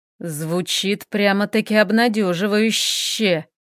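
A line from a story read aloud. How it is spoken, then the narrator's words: Hissed. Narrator (Russian): прошипел Хел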